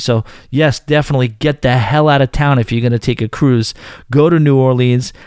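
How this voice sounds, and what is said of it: Strong New York accent. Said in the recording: “a New Yorker with a shitty accent”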